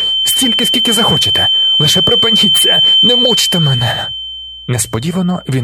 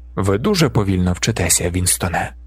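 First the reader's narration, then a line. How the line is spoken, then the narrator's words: Gentle speech. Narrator (Ukrainian): лагідно сказав О'Брайен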